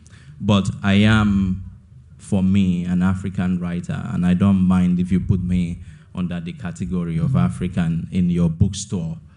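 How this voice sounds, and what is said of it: African-accented English. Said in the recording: “I couldn't claim to be a Chinese writer. My accent will give me away, so I am, in fact, an African writer.”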